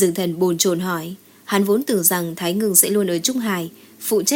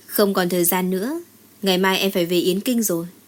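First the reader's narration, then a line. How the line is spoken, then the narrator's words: Cool, faint smile. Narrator (Vietnamese): Thái Ngừng cười nhạt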